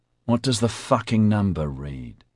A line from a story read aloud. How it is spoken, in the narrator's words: Roderick hissed back